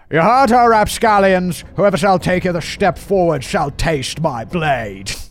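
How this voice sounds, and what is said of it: Poor put-on Scottish accent. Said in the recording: “Scottish. A Scottish accent... Sean Connery, Scottish, yes?... I tried, and it was horrible.”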